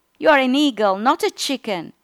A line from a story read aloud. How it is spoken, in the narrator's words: The biologist shouting